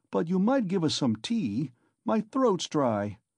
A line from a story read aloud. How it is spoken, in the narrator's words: cried Razumihin